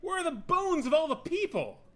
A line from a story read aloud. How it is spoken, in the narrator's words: He bellowed into the wind and rain with the last strength remaining to him